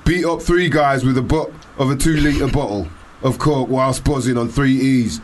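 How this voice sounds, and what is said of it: Put-on Leeds accent, unconvincing. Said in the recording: “I love the accent... I was trying to put on a Leeds accent there. It sounded like Manchester or some shit. It might even sound Polish... It sounded like some Leeds activity”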